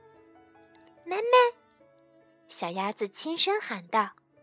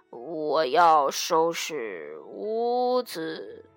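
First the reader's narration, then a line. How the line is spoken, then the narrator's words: Drowsy mumbling. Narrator (Chinese): 他迷迷糊糊的，还嘟囔着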